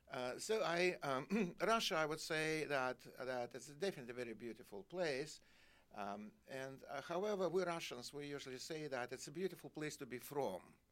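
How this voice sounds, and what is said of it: Russian accent. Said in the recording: “I just have my accent, Russian accent.”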